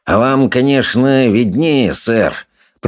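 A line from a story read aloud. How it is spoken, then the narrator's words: Through clenched teeth. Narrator (Russian): процедил он сквозь стиснутые зубы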